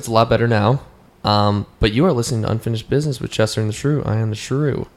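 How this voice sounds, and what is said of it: Raspy, worn voice. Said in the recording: “nice and raspy ... Lost my voice.”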